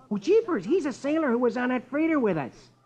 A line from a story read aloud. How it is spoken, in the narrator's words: Rusty exclaims